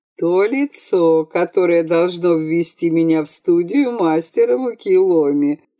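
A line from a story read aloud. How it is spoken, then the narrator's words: Laughing reply. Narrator (Russian): смеясь, ответила Бригитта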